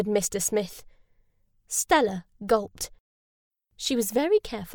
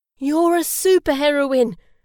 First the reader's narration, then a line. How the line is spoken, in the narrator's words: cried Mr